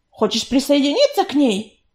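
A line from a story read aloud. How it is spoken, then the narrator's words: Angry bark. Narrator (Russian): рявкнула медуница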